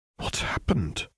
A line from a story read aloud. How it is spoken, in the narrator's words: she murmured to herself